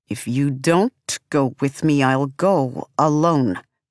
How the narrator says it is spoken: he snaps, finally speaking in Sansamat

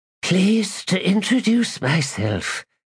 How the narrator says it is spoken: she said in a wheeze

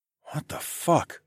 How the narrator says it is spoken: I muttered

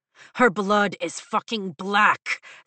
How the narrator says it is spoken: Zayden snaps

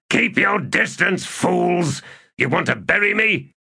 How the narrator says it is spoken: he snarled

